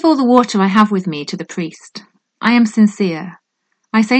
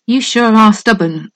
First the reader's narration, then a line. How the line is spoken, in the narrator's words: sighs the blue horse